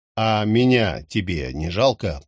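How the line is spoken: Grumbling in pain. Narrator (Russian): проворчал я, держась за ноющий бок

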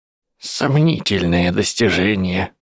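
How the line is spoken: Muttered under breath. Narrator (Russian): буркнула себе под нос Августа Лонгботтом

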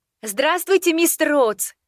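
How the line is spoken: Shouted. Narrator (Russian): крикнула я

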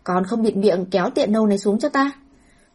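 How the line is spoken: Cold anger. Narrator (Vietnamese): Hàn Nhị phu nhân mang theo vẻ tức giận lạnh giá, lập tức mở miệng

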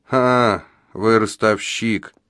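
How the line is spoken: Grumbling gravedigger. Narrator (Russian): пробурчал могильщик

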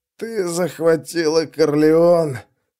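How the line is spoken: Hoarse wheeze. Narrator (Russian): прохрипел Стур

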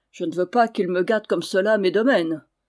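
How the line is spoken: Grumbling. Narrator (French): grommela-t-il

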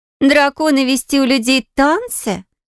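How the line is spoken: Snorting. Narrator (Russian): фыркнула Сиена

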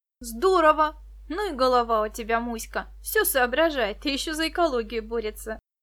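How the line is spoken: Laughing. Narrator (Russian): рассмеялась Виктоша

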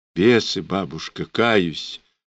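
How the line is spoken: Meek whisper. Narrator (Russian): покорным шепотом согласилась Варечка Черная

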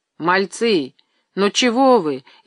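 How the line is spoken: Frightened terrified muttering. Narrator (Russian): испуганно бормотал он, в ужасе

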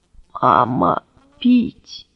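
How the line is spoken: Barely audible mutter. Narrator (Russian): едва шевеля губами, пробормотала

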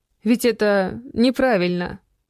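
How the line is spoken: Uncertain. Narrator (Russian): Неуверенно проговорила женщина

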